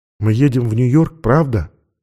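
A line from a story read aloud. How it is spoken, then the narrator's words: Sudden whispered question. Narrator (Russian): вдруг спросила она шепотом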